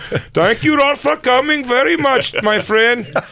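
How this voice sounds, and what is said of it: Mock Indian accent. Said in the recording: “you should have done a racist accent. ... just do Indian, just do the wrong one. ... that's not even the right racist.”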